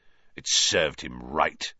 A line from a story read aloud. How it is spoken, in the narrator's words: sneered